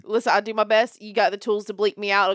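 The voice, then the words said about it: Thick regional accent. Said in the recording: “My accent's going to get real thick”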